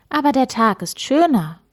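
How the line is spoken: Plain. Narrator (German): sagte Frau Weiß

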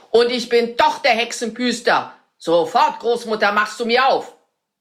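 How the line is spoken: Shout. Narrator (German): schrie der Zauberer

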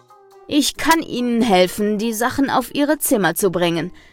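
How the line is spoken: Plain. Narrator (German): sagt er

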